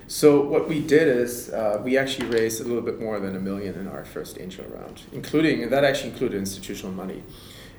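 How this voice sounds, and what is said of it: German accent. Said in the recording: “you can probably tell I'm German by my accent.”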